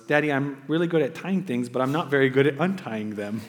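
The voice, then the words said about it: Cute little girl voice. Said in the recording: “her cute little girl voice”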